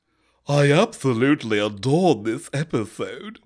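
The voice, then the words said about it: Imitates another person's voice. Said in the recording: “This is Reka talking ... Please do a voice ... That doesn't sound like her at all ... I'm doing a voice”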